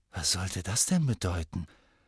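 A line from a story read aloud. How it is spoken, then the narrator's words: Whispered. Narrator (German): flüsterte Ron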